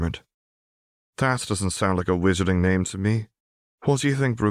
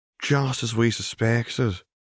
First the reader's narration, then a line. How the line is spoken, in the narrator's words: he muttered to his partner in his Irish brogue